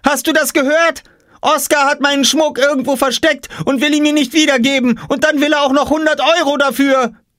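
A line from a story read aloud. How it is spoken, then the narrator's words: Shout. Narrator (German): schrie Jule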